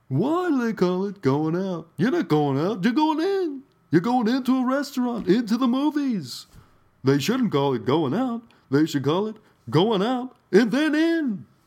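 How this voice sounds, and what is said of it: Cartoonish Jerry Seinfeld impression. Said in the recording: “that was like a very cartoonish impersonation”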